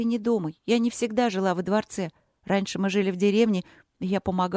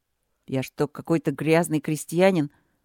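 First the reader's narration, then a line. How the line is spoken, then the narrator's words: Novice muttering through teeth. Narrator (Russian): процедил послушник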